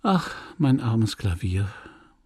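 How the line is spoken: Sighed. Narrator (German): seufzte sie

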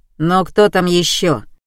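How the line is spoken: Muffled booming through door. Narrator (Russian): прогудел парень из-за двери

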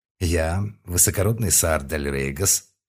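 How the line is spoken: Solemn. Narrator (Russian): торжественно стал говорить я

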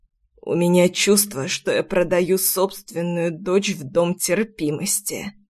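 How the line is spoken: Trembling, strained voice. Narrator (Russian): дрожащим голосом выдавил отец

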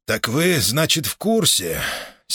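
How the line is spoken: Hoarse repetition. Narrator (Russian): севшим голосом повторил

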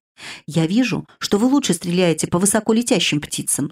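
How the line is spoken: Plain. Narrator (Russian): сказал он

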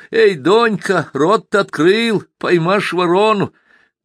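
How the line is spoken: Washerwoman shouting loudly. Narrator (Russian): одна портомойщица крикнула на всю реку

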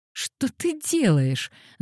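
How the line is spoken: Laughing. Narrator (Russian): засмеялась Пандора

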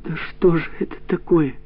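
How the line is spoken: Pleading. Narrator (Russian): взмолилась Катя

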